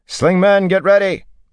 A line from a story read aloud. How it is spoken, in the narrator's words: Matt shouted